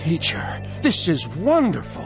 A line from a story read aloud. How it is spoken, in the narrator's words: Peter exclaimed